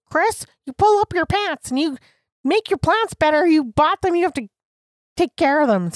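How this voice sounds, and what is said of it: Stern scolding mom voice. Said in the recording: “Did you say it in that voice?... That's the mom... that's my internal mom voice.”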